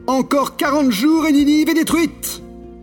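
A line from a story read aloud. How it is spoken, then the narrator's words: Shouting. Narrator (French): Il criait et disait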